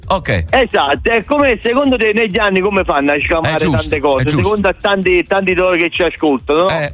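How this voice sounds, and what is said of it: Southern Italian, non-Tuscan accent. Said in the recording (Italian): “l'accento non è toscano... io sono di Torre del Greco”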